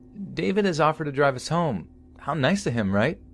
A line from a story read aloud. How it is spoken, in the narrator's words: Corrine cheerfully announces